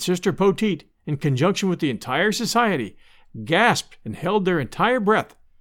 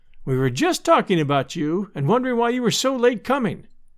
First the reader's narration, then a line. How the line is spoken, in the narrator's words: cried Sister Poteet